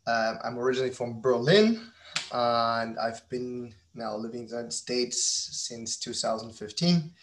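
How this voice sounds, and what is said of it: German accent. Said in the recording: “if my accent doesn't give me away, but I'm a German entrepreneur”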